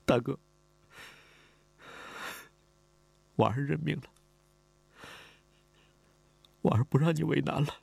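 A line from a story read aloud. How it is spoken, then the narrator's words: Crying. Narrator (Chinese): 李婉儿哭了，他哭着说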